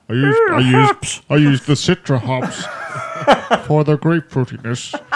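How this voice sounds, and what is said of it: Posh imitation of another person. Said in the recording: “Is that you're impressing of me? ... I sound so posh.”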